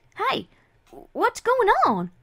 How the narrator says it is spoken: Apple Bloom exclaimed, only to find her mouth being forced shut

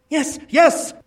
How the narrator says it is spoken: cried Publius

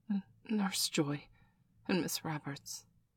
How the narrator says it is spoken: he was finally able to mutter

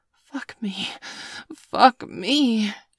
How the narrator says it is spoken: panted

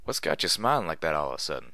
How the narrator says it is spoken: I chuckled myself

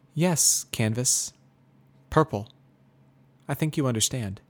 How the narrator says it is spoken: says softly

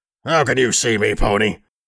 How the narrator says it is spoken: a disembodied voice growl

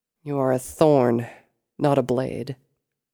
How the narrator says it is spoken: Sable muttered

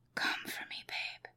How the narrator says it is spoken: he whispered

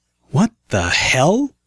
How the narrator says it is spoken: I stammered

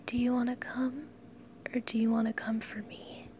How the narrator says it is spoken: I whispered to him

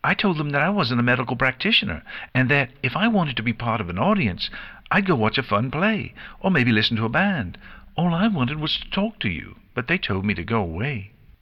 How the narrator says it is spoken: Pinkie Pie continued in her normal energetic tone

